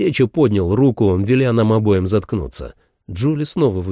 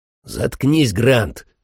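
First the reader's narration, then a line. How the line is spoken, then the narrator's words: Barking. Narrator (Russian): рявкнул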